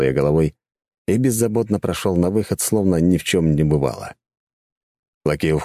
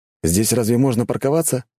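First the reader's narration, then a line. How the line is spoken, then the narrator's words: Skeptical snort. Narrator (Russian): скептично хмыкнул я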